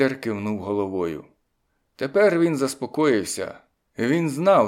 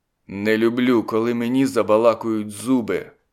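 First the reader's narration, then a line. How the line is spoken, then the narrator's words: Growling. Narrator (Ukrainian): прогарчав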